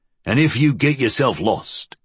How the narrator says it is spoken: his friend growled

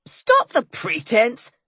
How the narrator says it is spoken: Bones snapped

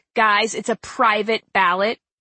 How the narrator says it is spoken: Hillary snapped

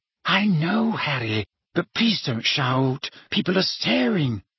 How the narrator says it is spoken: whispered Hermione

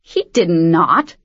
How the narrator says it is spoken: Arion spat

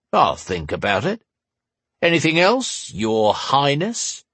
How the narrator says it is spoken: He said the last with a sarcastic sneer

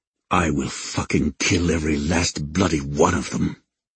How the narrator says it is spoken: Raiden snarled in my mind

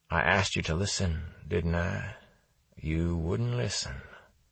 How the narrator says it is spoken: he spoke in a soft, detached voice

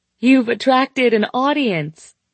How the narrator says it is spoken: she yelled so loud above the music that I winced

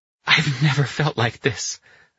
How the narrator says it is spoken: Anna gasped

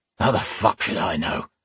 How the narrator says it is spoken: the other man growled back

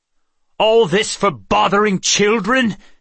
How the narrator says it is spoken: Amulon cried

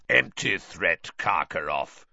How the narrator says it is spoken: growled a voice from near the door

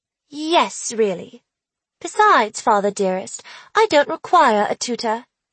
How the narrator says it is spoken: I said in an English accent

